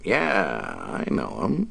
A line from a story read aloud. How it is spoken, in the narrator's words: Dave replied, his voice thick with contempt